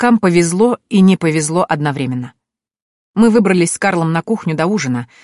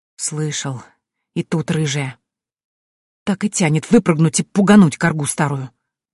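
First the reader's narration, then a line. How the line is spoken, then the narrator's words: Angry, through clenched teeth. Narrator (Russian): зло процедил Лукас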